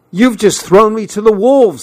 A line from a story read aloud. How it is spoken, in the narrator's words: I shouted